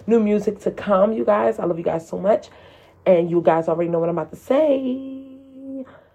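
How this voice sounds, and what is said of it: Messed up, strained voice. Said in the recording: “My voice is messed up today”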